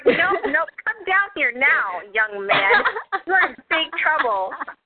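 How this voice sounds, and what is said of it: Stern mom voice, poorly done. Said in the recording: “That was my best mom impression. It was not good.”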